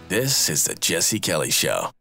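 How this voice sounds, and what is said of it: Imitates another person's voice. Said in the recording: “that was my best Jesse Kelly impression.”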